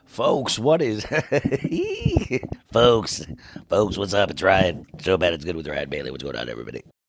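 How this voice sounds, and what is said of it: Rough, hoarse voice. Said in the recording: “my voice is a little rough”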